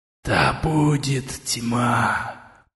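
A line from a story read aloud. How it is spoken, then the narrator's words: Whisper. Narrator (Russian): прошептал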